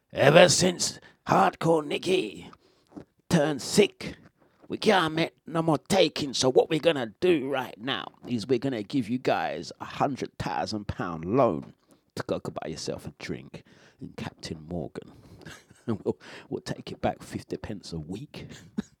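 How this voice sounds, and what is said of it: Impression of Rishi Sunak. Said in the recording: “this is my impersonation of Richie Sunak”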